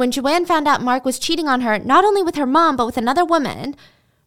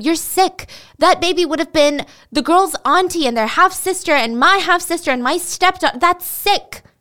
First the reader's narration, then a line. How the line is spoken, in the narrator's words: Joanne yelled at him